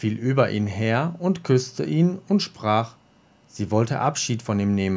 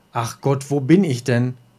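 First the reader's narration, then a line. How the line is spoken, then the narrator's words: Called out. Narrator (German): rief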